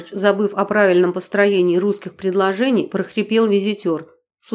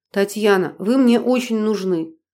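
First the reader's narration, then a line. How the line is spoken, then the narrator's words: Pleading. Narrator (Russian): почти взмолился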